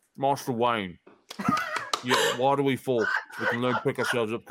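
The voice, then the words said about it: Cockney accent, mumbling as if eating. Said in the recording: “a really good Michael Caine impersonation ... you have to put on a Cockney accent, but you have to also have to pretend you're eating some ... You have to talk like this”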